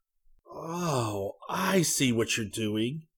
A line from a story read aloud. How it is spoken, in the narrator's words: he gasped